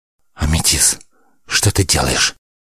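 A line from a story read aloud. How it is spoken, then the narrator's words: Impatient, barely squeezed out. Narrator (Russian): Горя от нетерпения, еле выдавил из себя воспитанник магов Святош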